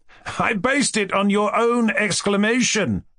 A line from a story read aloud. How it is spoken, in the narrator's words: cried Kolya